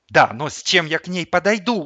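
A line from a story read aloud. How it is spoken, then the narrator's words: Desperate wail. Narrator (Russian): взвыл я в отчаянии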